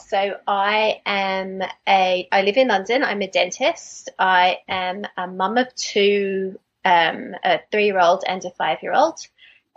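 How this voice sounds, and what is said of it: Australian accent. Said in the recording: “I'm Australian. You can probably hear from my accent ... I love your accent.”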